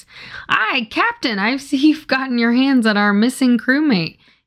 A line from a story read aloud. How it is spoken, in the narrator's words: he had said